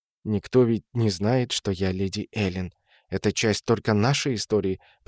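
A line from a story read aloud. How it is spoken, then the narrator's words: Whisper. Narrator (Russian): продолжала она шепотом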